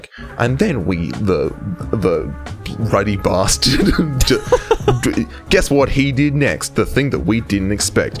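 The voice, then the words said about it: Imitates another person's voice. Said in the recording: “your Jason Statham impression”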